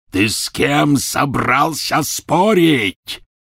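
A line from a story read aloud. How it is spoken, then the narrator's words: Roaring. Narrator (Russian): взревел Гарри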